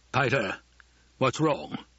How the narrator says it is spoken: The rumbling voice was far away

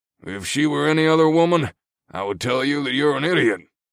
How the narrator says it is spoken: the old guy chuckled

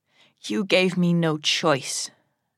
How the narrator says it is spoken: I growl

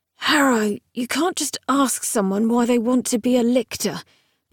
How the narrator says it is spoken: Gideon mumbled

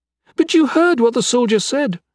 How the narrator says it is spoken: she cried

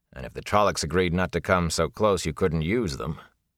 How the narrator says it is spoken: the warder said dryly

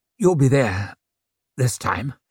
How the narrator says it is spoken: managed to say, his voice rough

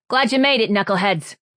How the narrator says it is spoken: she shouted over her shoulder

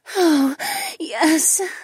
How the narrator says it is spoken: she moaned

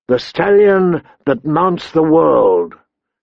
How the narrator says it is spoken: bellowed in 1,000 voices

